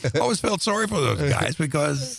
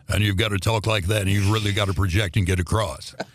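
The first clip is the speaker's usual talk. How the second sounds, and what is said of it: Fake booming radio announcer voice. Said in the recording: “You have a good fake radio voice”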